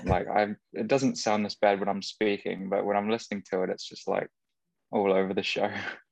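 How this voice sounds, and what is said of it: Mixed English and New Zealand accent. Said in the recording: “my accent is not Kiwi at all. It's like a mix of English, probably a little bit of Kiwi ... You do have the twang. ... at the moment, my Kiwi is stronger than usual ... sometimes it's like a small American accent”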